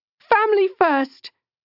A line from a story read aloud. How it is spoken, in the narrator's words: cried out